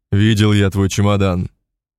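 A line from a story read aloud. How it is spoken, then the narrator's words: Snort. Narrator (Russian): Шалов хмыкнул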